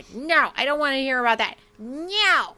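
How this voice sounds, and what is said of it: Impression of Robert. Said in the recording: “That was a perfect impression of Robert. Like, that sounded just like him. Like, that was his voice.”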